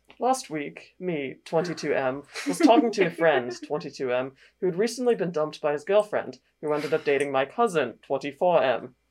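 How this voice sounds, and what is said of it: Put-on British accent. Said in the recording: “do the British voice ... British accent for am I the asshole for outing my trans cousin?”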